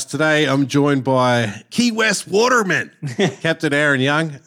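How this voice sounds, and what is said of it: Put-on American accent. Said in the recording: “That's my best American accent. ... That sounded all right.”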